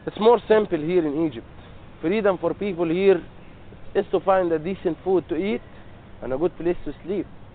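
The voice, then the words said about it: Thick Egyptian accent. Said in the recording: “an actual Egyptian ... His accent is a bit thick, so make sure you listen closely”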